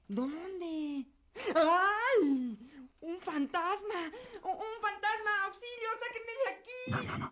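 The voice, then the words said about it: Frightened shouting. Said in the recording (Spanish): “No grites”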